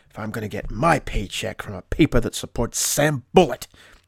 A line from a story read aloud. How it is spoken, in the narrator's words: he mutters